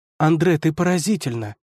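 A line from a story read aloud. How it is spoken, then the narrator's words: Exclaimed. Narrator (Russian): воскликнула она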